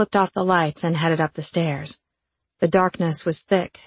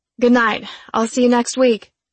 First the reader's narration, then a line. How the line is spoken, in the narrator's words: hollered over my shoulder